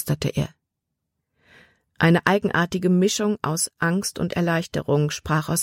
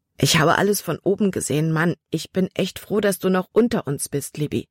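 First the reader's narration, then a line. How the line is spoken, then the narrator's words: Plain. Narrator (German): sagte Caleb nun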